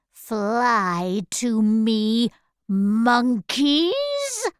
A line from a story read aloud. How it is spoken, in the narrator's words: she said slowly